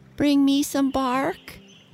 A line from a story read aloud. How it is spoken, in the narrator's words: begged Sniffy